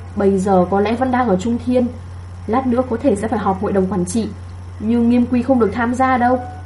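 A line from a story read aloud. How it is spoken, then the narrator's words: Sighing. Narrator (Vietnamese): Hàn Ly thở dài nói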